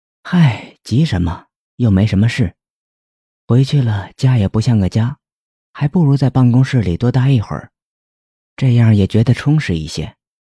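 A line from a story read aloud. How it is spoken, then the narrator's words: Wistful sigh. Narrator (Chinese): 于姐感叹道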